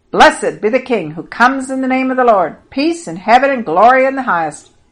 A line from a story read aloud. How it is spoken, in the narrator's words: everybody around was shouting